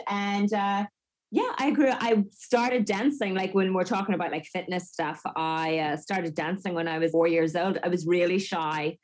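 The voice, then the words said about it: Unusual Northern Irish accent. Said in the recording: “the north of Ireland ... that's what we like to call it where I'm from ... Maybe that's why I have a weird accent. I went to elocution lessons”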